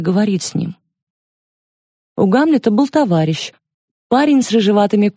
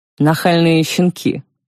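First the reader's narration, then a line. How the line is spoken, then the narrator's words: Father muttering through teeth. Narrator (Russian): пробормотал отец сквозь зубы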